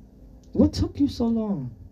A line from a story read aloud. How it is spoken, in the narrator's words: Anatol asked sternly in English